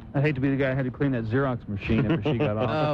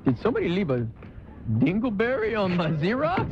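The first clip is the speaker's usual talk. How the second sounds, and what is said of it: Put-on French Cajun-style accent. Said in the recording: “kind of a crazy accent... A little French to it... Kind of Cajun.”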